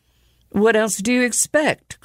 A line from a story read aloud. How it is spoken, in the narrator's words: cried Mark